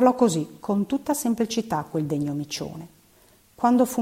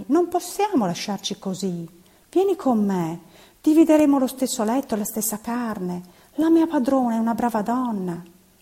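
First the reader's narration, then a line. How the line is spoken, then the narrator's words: Exclaiming. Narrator (Italian): esclamai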